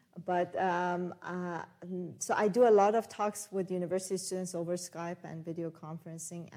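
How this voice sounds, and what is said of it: Iranian accent. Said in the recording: “I haven't been back to Iran since I left ... I've never lost my accent.”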